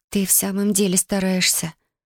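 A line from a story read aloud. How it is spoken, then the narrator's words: Quiet. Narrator (Russian): тихо промолвила Юми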